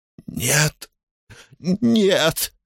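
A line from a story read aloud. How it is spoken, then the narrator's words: Hoarse old woman. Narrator (Russian): прохрипела пожилая дама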